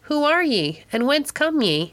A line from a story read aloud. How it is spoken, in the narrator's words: Menendez called out to him